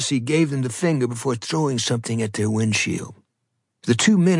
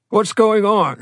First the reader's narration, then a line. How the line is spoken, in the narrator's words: shouted the radio